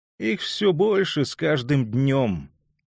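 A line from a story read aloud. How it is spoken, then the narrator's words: Thin cracked complaining voice. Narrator (Russian): пожаловался он тоненьким, надтреснутым голоском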